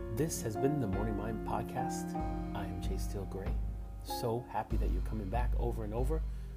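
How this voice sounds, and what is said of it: Tired voice. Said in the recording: “This is the first time that I've used my voice today ... My voice is a little tired today”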